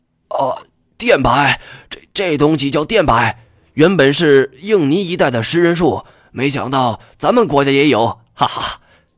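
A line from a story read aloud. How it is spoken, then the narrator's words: Breathless and excited. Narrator (Chinese): 润教授跑的气都喘不上来了 兴奋的 好半天才缓过劲来说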